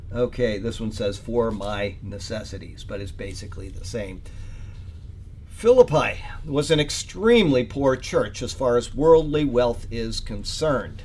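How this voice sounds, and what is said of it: Sick, congested, low-energy voice. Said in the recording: “I'm not feeling great at all... blowing my nose... I'm sorry if my voice isn't very spunky”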